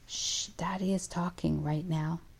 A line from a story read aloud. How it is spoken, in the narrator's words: say quietly